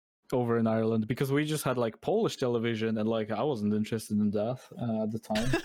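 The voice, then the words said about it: Mixed Irish accent. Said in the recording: “my accent is a mix of a lot of local Irish accents”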